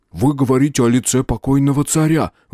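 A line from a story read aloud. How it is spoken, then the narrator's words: Terrified babble. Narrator (Russian): в ужасе пролепетал Джерн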